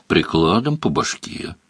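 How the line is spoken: Gloomy suggestion. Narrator (Russian): мрачно предложил Бонни

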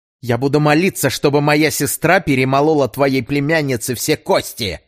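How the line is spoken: Boy barking. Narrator (Russian): рявкнул мальчик

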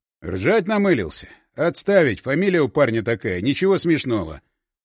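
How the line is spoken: Grim explanation. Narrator (Russian): мрачно объяснил Селиверстов

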